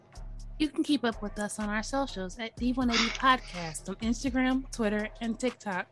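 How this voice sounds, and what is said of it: Polished professional podcast-host voice. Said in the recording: “That sounds so professional. ... Podcast voice.”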